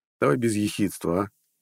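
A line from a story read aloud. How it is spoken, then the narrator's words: Smirking snort. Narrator (Russian): хмыкнул Нед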